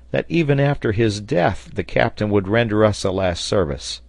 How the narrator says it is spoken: exclaimed the sailor

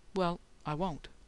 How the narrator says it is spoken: she said softly

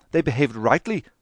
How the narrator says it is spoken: cried Dante

